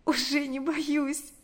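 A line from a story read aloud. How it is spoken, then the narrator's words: Sobbing, then smiling. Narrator (Russian): ответила она, всхлипнув и улыбнувшись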